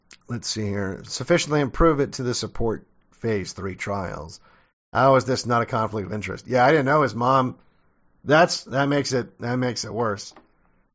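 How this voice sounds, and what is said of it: Hoarse, failing voice. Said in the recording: “I had to clear my throat there... my voice is going out”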